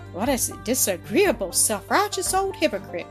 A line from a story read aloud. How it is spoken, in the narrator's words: cried Mildred, her cheeks flushed, her eyes flashing